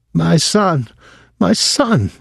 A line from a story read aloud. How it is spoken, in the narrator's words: cried